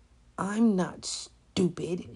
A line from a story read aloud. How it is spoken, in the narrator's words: said tightly